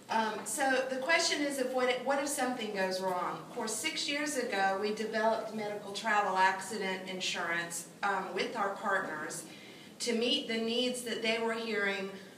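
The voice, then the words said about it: Loud voice with Southern accent. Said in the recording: “I always think I have a very loud voice and everybody hears me. And plus, I have a southern accent”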